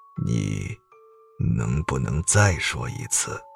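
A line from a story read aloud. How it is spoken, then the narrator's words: Changed tone, lowered voice. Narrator (Chinese): 他一下变了语气，同时压低了声音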